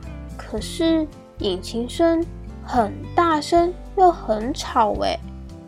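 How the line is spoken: Puzzled. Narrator (Chinese): 慢慢疑惑的说

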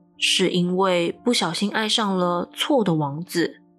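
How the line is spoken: Flat, indifferent. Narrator (Chinese): 他只淡淡的说

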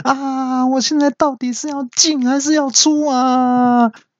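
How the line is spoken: Shouted. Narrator (Chinese): 喊完之后

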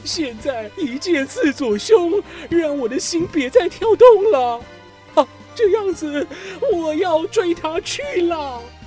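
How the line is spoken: Anguished loud cry. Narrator (Chinese): 皮拉麦斯心痛如刀割，大叫

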